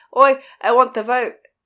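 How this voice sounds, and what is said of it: Terrible put-on vaguely Swedish accent. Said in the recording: “I said in my terrible accent... I don't even know what I was going for... It's all kind of like weird, like Swedish, I think.”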